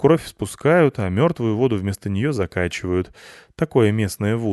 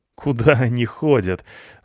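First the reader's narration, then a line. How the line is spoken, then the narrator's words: Laughing. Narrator (Russian): засмеялся я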